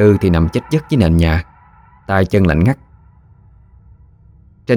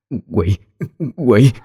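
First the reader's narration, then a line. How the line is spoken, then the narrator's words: Stammering cry. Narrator (Vietnamese): Bà lắp bắp kêu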